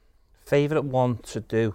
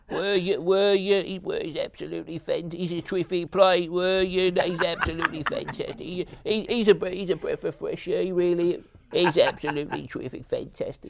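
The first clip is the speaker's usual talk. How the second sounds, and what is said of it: Spot-on Harry Redknapp impression. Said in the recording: “Favourite impression to do is Harry Redknapp. I love doing Harry Redknapp... It's spot on.”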